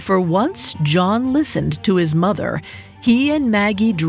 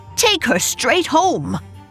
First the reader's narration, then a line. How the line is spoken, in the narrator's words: Ellen shouted at John just as urgently